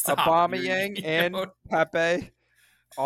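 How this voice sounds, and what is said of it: Usual voice. Nothing is said of it.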